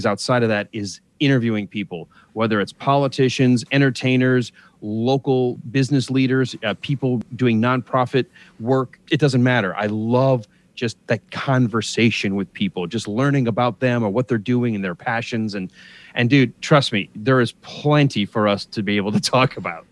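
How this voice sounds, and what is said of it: Polished radio announcer voice. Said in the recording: “You got that radio voice.”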